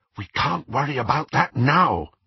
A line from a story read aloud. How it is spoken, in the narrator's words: whispered Hermione